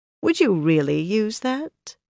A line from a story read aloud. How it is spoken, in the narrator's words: she asked in an almost mild tone